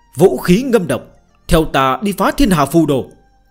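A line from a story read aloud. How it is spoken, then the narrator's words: Raised voice. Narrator (Vietnamese): Đế Thích Thiên Vương cao giọng nói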